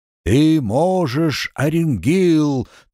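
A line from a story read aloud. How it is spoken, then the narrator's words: Booming trumpet-like voice. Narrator (Russian): трубным голосом гремел старший ангел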